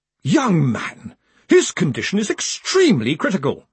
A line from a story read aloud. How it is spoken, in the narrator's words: she snapped